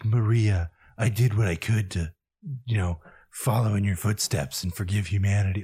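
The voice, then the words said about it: Imitated video game character voice. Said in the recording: “my Shadow impression”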